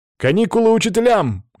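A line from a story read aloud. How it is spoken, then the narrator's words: Shouted. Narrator (Russian): крикнул я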